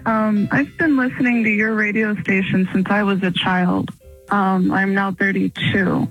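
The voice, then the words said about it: Sad-sounding voice. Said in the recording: “do you sound sad ... that is why you sound sad”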